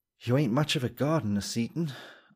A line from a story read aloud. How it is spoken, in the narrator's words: said, with a sigh of ease